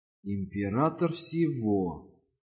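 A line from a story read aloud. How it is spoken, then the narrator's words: Whisper to self. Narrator (Russian): прошептал сам себе Руис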